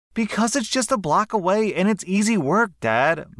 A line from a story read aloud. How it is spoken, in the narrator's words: my roommate screamed back